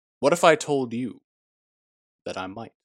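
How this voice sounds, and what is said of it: Impression of Morpheus. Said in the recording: “that Yahya Abdul-Mateen impersonation of Lawrence Fishburne's Morpheus”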